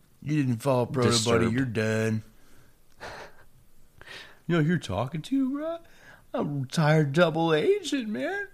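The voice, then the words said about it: Imitates another person's voice. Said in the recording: “that's a pretty fucking good impression.”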